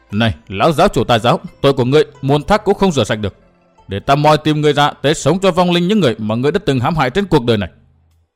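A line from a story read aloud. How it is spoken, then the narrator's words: Said in a harsh, stressed voice. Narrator (Vietnamese): cậu gằn giọng nói với ma đầu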